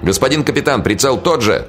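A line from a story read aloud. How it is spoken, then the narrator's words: Shouted from below. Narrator (Russian): кричали снизу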